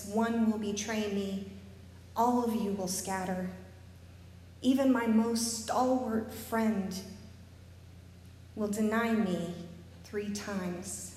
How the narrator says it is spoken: Sadly, he says

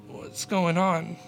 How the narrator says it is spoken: mumbled

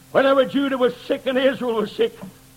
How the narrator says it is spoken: he cried out

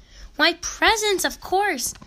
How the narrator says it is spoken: they exclaimed with delight

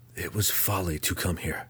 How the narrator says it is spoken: Drizzt whispered under his breath

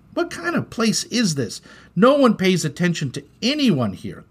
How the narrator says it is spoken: cried Malachi

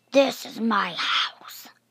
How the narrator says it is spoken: she starts responding with a growling, raspy voice that claims

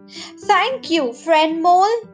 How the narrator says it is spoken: the deer cried out

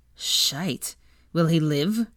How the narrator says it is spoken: Draco snorted

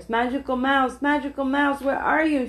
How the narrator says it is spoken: she whispered

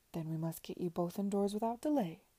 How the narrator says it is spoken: cried Mr

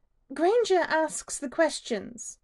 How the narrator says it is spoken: she snaps

